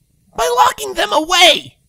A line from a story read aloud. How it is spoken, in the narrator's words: Rainbow yelled